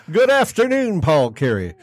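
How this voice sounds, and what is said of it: George Kell impression. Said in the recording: “I was about to bust into a George Kell impersonation.”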